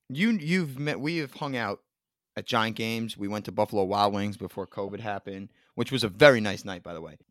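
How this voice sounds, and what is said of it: Thick New York accent. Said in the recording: “Do I have like an accent like that? ... the New York and the New Jersey just oozes out of us ... that New York accent is thick”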